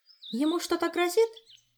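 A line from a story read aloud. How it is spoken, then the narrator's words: Frightened. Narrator (Russian): испуганно предположила Ольга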